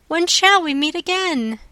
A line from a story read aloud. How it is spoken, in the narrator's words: she cried